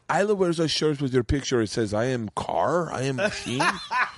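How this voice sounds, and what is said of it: Put-on heavy Russian accent. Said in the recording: “Very, very Russian accent.”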